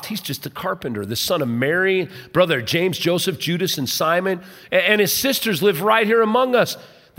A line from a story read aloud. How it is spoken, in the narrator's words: they scoffed